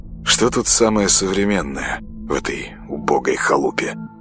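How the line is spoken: Muttered. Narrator (Russian): Бормотал он

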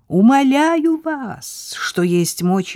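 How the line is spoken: Shouted. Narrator (Russian): выкрикнул Саверин

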